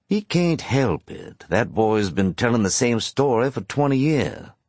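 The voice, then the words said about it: Mild regional accent. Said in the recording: “has the same accent, just not quite as thick as his brother's.”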